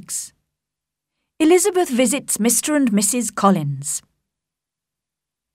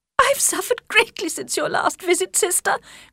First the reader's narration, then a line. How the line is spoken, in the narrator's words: cried Mrs